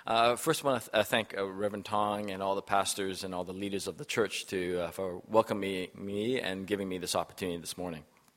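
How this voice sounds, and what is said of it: Weak, tired voice. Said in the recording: “my voice is a little weak today”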